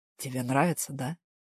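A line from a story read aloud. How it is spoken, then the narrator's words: Whispered close by. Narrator (Russian): шепнул он, совсем где-то рядом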